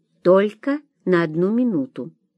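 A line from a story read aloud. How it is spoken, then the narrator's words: Plain. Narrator (Russian): сказала врачиха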